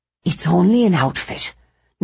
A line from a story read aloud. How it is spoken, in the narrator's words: Nora would whisper